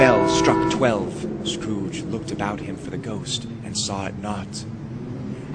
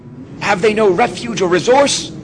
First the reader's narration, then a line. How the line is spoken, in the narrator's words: cried Scrooge